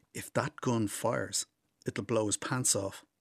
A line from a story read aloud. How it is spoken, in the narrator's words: Rossa, the youngest, whispers to me